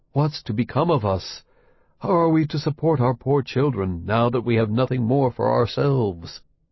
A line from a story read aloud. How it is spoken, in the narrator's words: full of cares and worry, he sighed and said to his wife